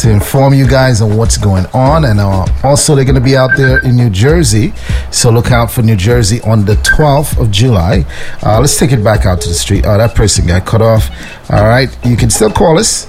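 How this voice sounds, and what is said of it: Smooth radio announcer voice. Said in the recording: “I'm very jealous of your radio voice ... Look, sounding all smooth”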